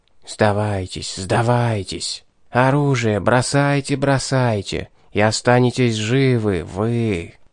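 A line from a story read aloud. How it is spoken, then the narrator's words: Soft, insinuating persuasion. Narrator (Russian): Проникновенно вкрадчиво уговаривал кто-то нас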